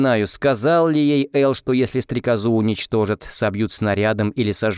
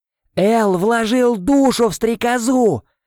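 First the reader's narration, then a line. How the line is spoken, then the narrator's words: Yelling. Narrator (Russian): заорал я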